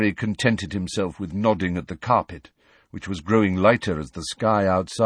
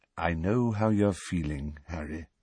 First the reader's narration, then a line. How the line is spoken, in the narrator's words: said Dumbledore, very quietly